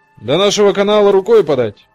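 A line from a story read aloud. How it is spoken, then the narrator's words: Shouting from the bow. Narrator (Russian): крикнул с носа Лит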